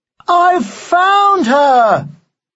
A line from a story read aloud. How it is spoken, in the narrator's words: yelled Troy Bullock triumphantly